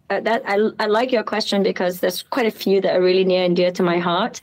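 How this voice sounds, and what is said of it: British-sounding accent. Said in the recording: “I know you hear a British accent”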